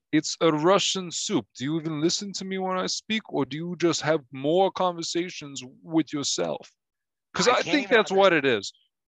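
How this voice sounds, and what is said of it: Thick mumbled Russian accent. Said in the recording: “Sounds like you have marbles in your mouth with that dumb accent”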